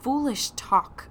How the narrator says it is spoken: I said

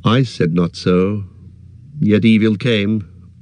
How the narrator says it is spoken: answered Legolas sadly

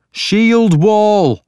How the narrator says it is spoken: shouted

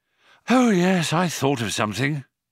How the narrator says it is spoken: panted Ford

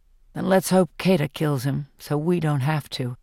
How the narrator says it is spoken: says Peeta grimly

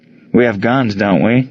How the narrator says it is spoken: chuckled

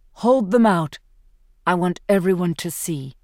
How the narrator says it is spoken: he says

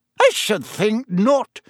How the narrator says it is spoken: said Professor McGonagall sharply

